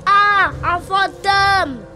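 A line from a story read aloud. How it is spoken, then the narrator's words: Screamed. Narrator (French): hurla Fiona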